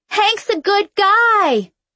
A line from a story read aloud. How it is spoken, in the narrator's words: I yelled as the officer took my arm and dragged me away